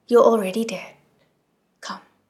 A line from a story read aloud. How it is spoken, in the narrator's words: said coldly